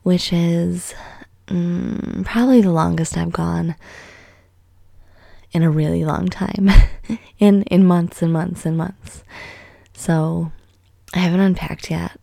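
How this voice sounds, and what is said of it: Congested voice from a cold. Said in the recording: “I don't know if you can tell, but I have a cold ... I might just sound like a sick person too”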